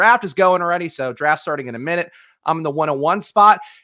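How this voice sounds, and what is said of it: Usual voice. Nothing is said of it.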